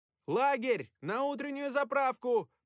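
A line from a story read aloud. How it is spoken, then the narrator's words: Roaring. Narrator (Russian): проревел Шерман Ян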